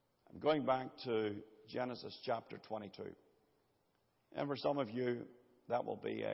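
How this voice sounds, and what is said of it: Usual voice. Nothing is said of it.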